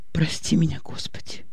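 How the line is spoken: Whispered. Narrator (Russian): прошептала Аня

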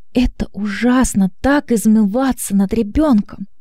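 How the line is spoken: Tearful. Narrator (Russian): Из ее глаз текли слезы

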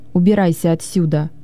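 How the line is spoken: Rude reply. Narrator (Russian): грубо ответила она

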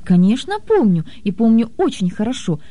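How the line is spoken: Rather sharp reply. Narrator (Russian): довольно резко ответил кот

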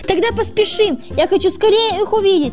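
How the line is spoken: Exclamation. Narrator (Russian): воскликнул Джинджер

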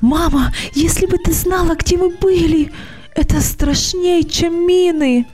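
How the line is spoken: Breathless excited shout. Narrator (Russian): закричала Даша, задыхаясь от волнения

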